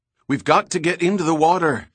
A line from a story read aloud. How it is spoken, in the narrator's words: yelled as the gas erupted